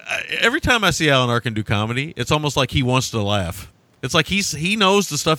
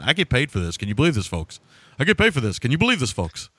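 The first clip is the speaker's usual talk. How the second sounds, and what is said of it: Imitates another person's voice. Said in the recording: “my Alan Arkin impersonation”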